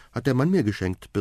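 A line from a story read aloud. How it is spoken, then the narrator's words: Cheerful report. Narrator (German): berichtet fröhlich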